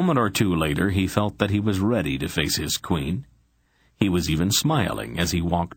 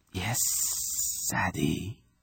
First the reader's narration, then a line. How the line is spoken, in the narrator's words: she whispered finally, her voice a dusty hiss